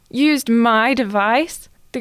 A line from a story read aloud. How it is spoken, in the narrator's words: The girl sighed